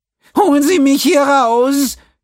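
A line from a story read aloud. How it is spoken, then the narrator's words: Wailing, gasping for air. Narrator (German): jammerte er und schnappte nach der ziemlich dünnen Luft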